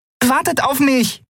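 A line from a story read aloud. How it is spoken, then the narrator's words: Calling after them. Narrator (German): rief Nelen ihnen hinterher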